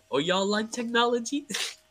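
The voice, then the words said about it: Imitates another person's voice. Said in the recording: “my best Tracy Morgan impression.”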